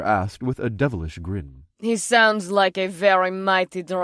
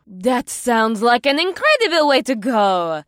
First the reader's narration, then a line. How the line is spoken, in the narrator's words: the Kunag woman gasped